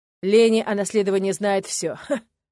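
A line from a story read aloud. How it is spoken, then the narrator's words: Smirking snort. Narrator (Russian): хмыкнул Даррен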